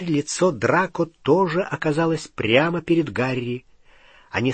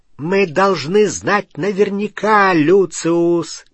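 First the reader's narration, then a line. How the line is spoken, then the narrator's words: Cold clear shout. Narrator (Russian): крикнула она мужу холодным, ясным голосом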